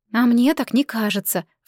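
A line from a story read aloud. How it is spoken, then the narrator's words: Sighing. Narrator (Russian): вздохнула Рико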